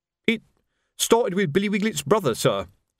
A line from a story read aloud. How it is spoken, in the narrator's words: said Colon nervously